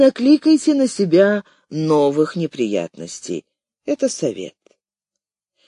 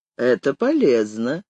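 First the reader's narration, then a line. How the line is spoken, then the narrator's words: Snort over phone. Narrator (Russian): хмыкнули на том конце провода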